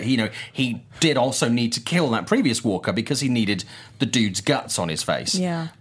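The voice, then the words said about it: British accent, soothing voice. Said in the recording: “I love this guy's accent. He should be reading an audiobook. ... I could send people to sleep with my voice ... I'll do British.”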